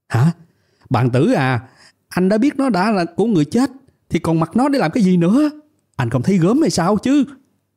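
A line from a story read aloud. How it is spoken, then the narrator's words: Shouting. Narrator (Vietnamese): Tôi thấy vậy hét lên với bàn tử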